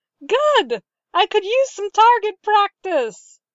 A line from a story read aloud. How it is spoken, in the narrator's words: laughter echoed through the base, and Leia heard someone shout